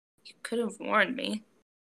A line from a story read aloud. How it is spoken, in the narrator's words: Izuku mutters